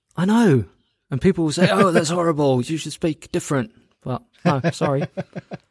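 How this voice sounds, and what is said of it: London-sounding English accent. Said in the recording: “your accent switches according to who you're speaking with ... I just can't maintain the American accent ... you sound like you're from London”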